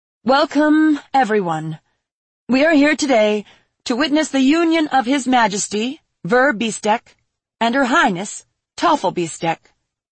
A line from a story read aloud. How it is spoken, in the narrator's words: Michelle said, her voice amplified through wind magic